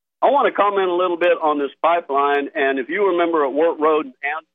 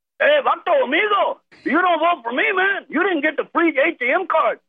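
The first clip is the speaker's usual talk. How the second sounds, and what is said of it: Put-on South Central LA Latino accent. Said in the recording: “I didn't know you do voices ... a damn good ... South Central LA Latino accent.”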